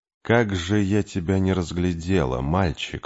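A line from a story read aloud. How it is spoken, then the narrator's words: Purring voice. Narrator (Russian): мурлыкающим голосом сказала Каль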